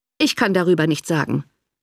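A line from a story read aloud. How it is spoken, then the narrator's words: Cold reply. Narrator (German): erwiderte der Baronet kalt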